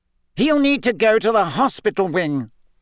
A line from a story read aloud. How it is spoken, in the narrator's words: Fudge was saying loudly